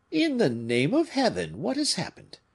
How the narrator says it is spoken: exclaimed all the voices

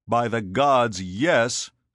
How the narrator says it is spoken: Scipio roared

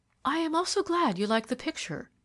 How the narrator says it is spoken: she said eagerly

